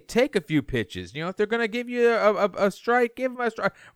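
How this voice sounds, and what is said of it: Brad Pitt impression. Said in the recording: “That was a great Brad Pitt impression, actually. For a second, I thought I was on the Zoom with Brad Pitt. ... I sounded like Jonah Hill more than Brad Pitt.”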